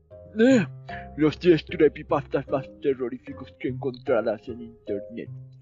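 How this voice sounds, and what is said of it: Old man voice. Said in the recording (Spanish): “voz de viejito, de anciano... con la voz de anciano”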